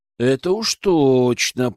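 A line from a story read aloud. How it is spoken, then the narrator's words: Drawl. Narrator (Russian): протянул я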